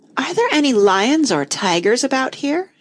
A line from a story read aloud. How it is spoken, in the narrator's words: she asked timidly